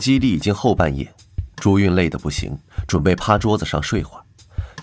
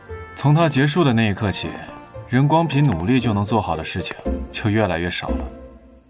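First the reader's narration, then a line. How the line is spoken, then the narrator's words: Flat, cigarette in mouth. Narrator (Chinese): 李寻咬着烟淡淡道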